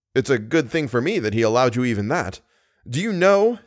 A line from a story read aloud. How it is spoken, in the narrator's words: said Raoul bitterly